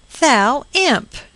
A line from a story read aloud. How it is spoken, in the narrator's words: she cried